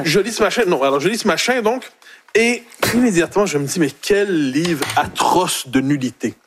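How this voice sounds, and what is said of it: Québécois French accent. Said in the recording (French): “son accent québécois”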